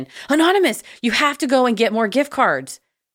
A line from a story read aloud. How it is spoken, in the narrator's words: frantically texting